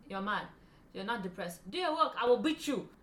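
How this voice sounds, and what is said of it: Convincing put-on accent. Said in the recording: “That's a great accent.”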